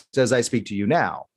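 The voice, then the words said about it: News anchor broadcast voice. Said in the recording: “I have a news voice. This is my normal voice. This is my news voice”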